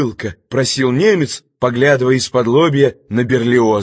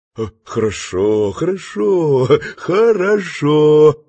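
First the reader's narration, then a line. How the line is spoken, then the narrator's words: Falsely affectionate muttering. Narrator (Russian): фальшиво-ласково бормотал Берлиоз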